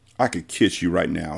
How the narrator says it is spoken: he muttered

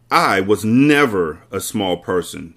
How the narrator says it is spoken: she snapped

